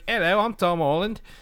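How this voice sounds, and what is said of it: Put-on English accent. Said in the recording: “an England person himself ... in his native, accent.”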